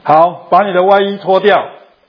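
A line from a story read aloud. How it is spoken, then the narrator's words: Teacher speaking, plain. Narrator (Chinese): 老师叫这个学生说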